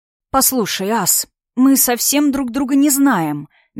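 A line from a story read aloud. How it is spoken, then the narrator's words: Soft. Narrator (Russian): мягко начала я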